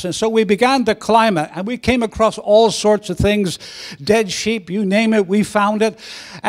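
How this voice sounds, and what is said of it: Northern Irish Belfast accent. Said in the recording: “growing up in Belfast ... my accent because people are always asking me about my accent”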